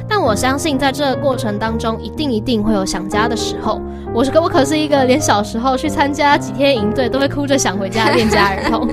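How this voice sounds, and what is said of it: Taiwanese-accented Mandarin. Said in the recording (Chinese): “我不折不扣的台湾口音”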